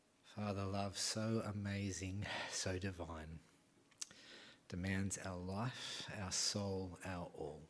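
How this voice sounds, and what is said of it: Hoarse, strained worn-out voice. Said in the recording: “my voice is shot from all the conversation that happened afterwards”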